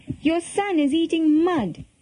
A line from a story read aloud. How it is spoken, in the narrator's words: cried